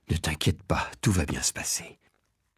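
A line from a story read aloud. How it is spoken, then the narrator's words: Murmured. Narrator (French): il a murmuré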